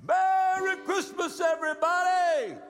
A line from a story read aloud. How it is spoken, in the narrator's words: just about the time he was getting out of our hearing, he hollered